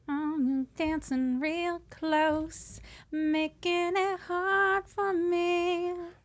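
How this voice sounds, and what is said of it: Sings imitating a singer's voice. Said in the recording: “You got a voice. ... such a good impression.”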